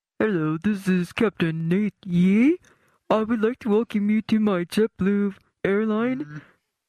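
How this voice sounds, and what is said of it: Impression of an airline captain. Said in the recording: “she does impressions ... Your captain on the flight ... my impression”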